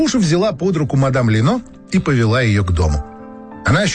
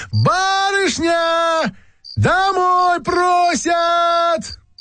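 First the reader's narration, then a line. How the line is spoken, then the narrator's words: Shrill thin scream. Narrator (Russian): она закричала пронзительно и тонко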